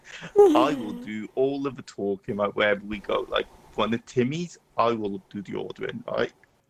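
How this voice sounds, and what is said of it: British accent. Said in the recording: “I am not giving up my British accent for anything”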